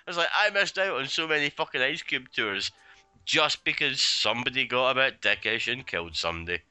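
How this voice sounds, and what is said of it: Scottish accent. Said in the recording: “with my accent, that rap shit just doesn't work... there are Scottish rappers”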